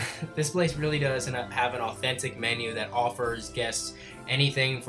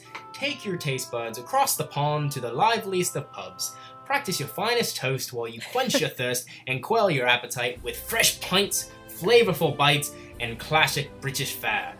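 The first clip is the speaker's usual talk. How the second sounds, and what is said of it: Mediocre put-on British Cockney accent. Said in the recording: “pardon my terrible British Cockney, I don't know, accent ... I don't think it was that bad. It was all right ... it's not as good as my Bane or any other accents”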